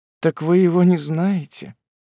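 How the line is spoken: Sad. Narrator (Russian): сказала печально

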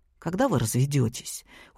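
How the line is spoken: Glum question, young man. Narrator (Russian): уныло спросил парень

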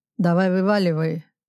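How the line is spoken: Rude reply. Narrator (Russian): грубо ответил Сущев

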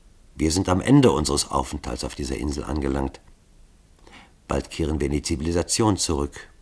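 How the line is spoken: Softly trembling voice. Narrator (German): seine Stimme bebte leise

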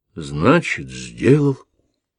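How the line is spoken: Surprised mutter. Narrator (Russian): пробормотал Шава, все еще удивленный

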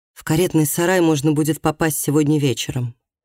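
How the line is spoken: Plain. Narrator (Russian): сказала она

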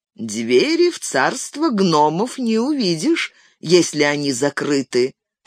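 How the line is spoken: Plain. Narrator (Russian): сказал Гимли

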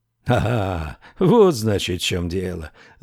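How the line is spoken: Awkward laugh. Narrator (Russian): засмеялся Ричард, чувствуя определенную неловкость

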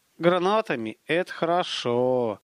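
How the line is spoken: Sighing. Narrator (Russian): Вздохнул Столяров

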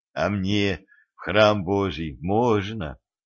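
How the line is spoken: Timid question, healer. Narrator (Russian): робко спросил знахарь

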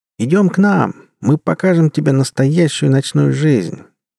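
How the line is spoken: Cheerful call, older women. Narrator (Russian): Весело позвали меня девицы далеко не юного возраста

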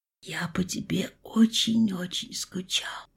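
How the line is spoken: Whispered in ear. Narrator (Russian): прошептал муж мне на ухо

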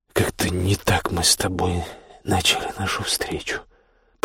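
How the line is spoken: Muttering. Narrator (Russian): пробормотал Костя

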